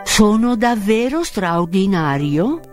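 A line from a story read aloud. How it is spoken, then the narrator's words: Plain question. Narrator (Italian): chiese lo spaventapasseri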